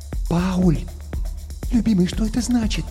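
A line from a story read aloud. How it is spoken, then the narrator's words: Whispered question. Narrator (Russian): шепотом спросила Гретхен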